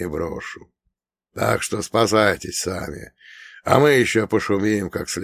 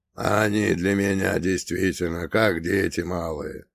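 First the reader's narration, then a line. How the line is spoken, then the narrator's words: Creaky voice. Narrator (Russian): проскрипел Лешак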